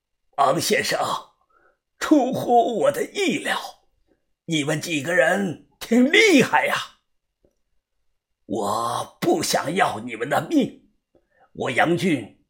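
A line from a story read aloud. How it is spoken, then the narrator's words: Hoarse. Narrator (Chinese): 他沙哑的说道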